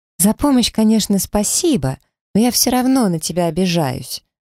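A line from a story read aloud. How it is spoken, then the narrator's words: Friend exclaiming. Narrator (Russian): воскликнула подруга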